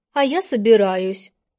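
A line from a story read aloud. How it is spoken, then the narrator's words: Cold curt remark. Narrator (Russian): холодно бросила она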